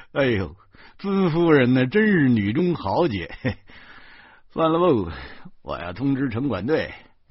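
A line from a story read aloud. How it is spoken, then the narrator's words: Laughing. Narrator (Chinese): 片警哈哈的笑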